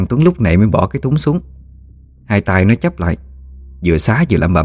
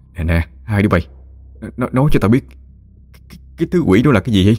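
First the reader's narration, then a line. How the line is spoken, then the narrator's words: Shaken, trembling voice. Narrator (Vietnamese): Tôi lúc này vẫn chưa hoàn hồn, giọng run rẩy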